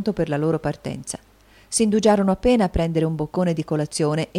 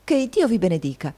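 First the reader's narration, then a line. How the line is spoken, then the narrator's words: Exclaimed. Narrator (Italian): esclamò Nicola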